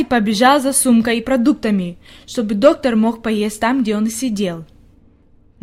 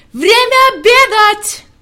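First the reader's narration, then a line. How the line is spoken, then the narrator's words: All-out shout. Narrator (Russian): Он изо всех сил закричал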